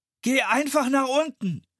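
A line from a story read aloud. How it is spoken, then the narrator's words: Bellowing. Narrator (German): brüllte Philipp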